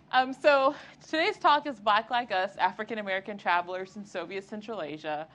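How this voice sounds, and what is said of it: Southeast Texas accent, elongated vowels. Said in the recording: “I am from Southeast Texas. I quit trying to hide my accent... sometimes I will drop vowels and elongate them for days”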